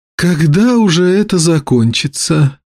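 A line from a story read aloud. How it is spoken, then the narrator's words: Sighing. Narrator (Russian): вздохнула Глидея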